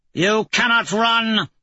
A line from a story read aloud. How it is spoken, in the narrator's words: Azja shouts